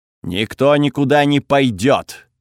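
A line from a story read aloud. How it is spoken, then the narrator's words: Rough-voiced announcement. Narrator (Russian): грубым голосом объявила богиня огня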